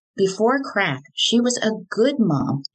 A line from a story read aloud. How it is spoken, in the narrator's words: Johnny said